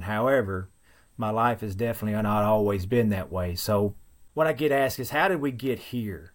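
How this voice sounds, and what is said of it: Thick rural Western Kentucky accent. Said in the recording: “as you can tell, I'm not from the Northeast. Very thick accent. I have found that there is a particular dialect that only exists in a very small section of Western Kentucky ... I'm just country”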